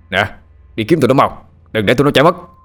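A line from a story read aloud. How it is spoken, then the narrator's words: Shouted command. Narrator (Vietnamese): Một tên mafia hét lên, lệnh cho đám lính dưới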